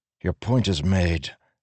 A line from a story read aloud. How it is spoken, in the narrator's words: Adolin said more softly